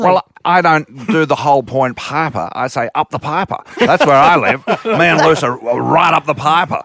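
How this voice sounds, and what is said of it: Imitates another person's voice. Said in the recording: “impersonator. It's blowing my mind, actually. ... It's getting closer the more I hear it.”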